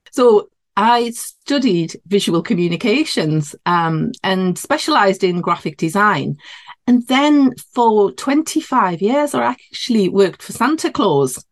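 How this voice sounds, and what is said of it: Geordie northeast English accent. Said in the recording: “you might be able to tell by my accent. I'm in the northeast of England. So yeah, this would be classed as a Geordie accent near Newcastle upon Tyne”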